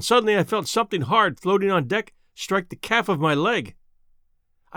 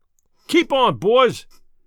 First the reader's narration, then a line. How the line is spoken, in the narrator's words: As soon as I got my breath, I shouted, as in duty bound